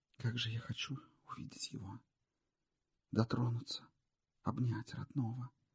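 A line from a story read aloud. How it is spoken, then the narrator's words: Whispering. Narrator (Russian): шептала она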